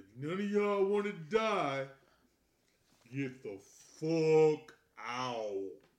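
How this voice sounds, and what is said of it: Shouted impression of a movie character. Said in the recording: “my best impression of a Players Club before I need to shout at the club”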